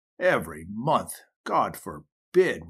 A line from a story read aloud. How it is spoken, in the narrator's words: replied Jim with a faltering voice and a haggard look